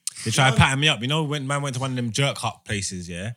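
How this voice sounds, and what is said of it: English accent. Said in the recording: “my accent was too much for her ... you clocked I was an English”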